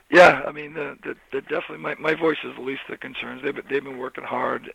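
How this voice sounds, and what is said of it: Hoarse, quiet voice. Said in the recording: “my voice is a little hoarse. ... we're going to have to crank the volume up on you”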